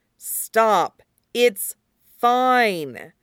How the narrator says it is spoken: Alistair says at last, making his voice as firm as he can

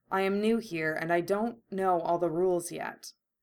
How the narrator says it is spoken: Kurama said calmly

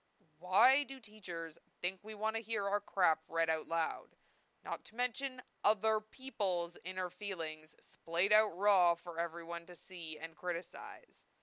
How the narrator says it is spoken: Zell growled

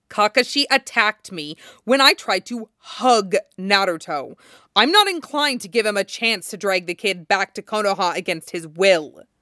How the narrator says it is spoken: snaps

